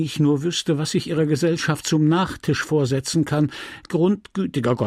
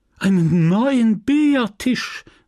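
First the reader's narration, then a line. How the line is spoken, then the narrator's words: Widow calling out. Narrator (German): rief die Witwe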